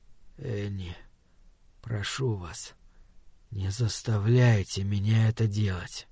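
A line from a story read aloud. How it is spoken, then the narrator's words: Clear but quiet. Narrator (Russian): отчетливо, хотя и негромко, сказал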